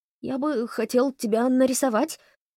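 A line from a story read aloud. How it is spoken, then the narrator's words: Faltering babble. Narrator (Russian): пролепетал Холли Лонгли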